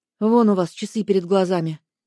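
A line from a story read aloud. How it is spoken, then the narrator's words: Curt grumble. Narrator (Russian): буркнула я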